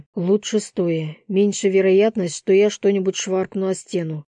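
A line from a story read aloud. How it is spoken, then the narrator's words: Snort. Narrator (Russian): хмыкнул я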